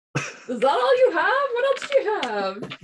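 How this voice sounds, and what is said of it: Put-on accent. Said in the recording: “Why are you doing this accent? ... he drops the accent”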